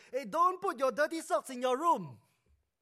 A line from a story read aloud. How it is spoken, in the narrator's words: his mother shouted from across the hallway